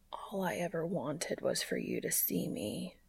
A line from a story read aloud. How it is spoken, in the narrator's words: he whispers